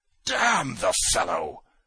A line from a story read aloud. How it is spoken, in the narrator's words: roared Trudolyubov